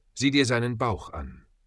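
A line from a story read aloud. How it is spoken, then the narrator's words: Quiet. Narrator (German): sagte leise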